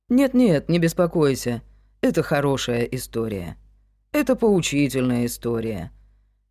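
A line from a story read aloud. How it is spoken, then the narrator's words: Calm. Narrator (Russian): спокойно продолжил Крик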